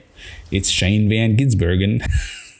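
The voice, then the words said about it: Put-on accent. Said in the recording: “Use that accent again.”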